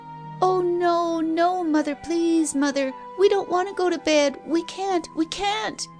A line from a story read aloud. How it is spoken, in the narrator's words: both wailed